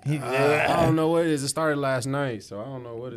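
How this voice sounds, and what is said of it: Hoarse, fading voice. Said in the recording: “I'm like losing my voice today. ... I noticed that.”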